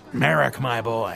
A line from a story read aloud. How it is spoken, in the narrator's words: growled